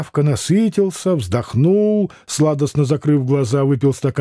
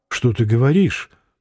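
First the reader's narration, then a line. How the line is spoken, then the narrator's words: Gentle reproach. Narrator (Russian): мягко упрекнула его Вера Петровна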